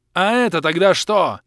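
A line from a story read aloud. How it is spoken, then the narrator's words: Yell. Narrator (Russian): заорал я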